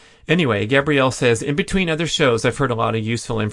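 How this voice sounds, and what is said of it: Usual voice. Nothing is said of it.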